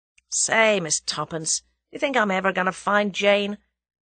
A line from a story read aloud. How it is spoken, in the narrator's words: Julia spoke in a discouraged voice